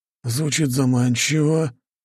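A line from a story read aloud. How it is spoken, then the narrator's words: Drawling. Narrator (Russian): протянул Джеймс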